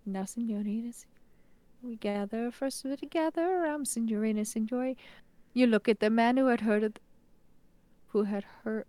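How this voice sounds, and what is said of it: Singing in Pirelli's accent. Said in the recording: “sing in Porelli's accent ... trying to like sing in his tone ... I think you nailed it”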